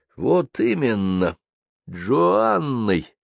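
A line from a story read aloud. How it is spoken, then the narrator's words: Clipped, emphatic. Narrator (Russian): отчеканил он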